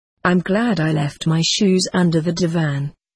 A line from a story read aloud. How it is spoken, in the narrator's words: I said